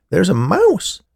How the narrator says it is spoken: Muriel exclaimed

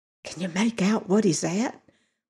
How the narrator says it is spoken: whispered Steve

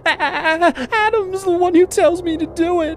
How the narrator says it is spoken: she said, her voice blubbering

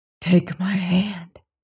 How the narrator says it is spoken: came a whisper

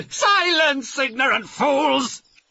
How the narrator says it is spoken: shouted Blackheart

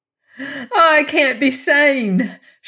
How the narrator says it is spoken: she burst out semi-hysterically

